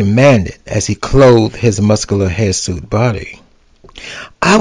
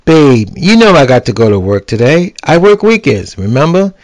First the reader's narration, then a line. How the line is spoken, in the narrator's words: He laughed